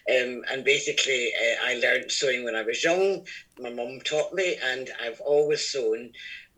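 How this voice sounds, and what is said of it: Scottish accent. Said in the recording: “I'm Scottish, as you can probably gather from my accent”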